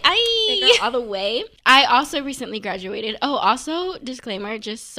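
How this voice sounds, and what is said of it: Hoarse, strained, nearly lost voice. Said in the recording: “sorry for my voice. I'm like going through it right now... Screaming. And I lost my voice.”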